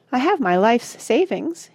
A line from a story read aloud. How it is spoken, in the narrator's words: said in a pathetic voice